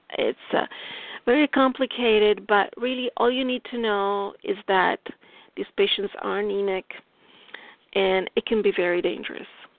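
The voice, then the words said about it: Noticeable non-native English accent. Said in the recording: “I hope my accent doesn't get too much in the way of understanding me.”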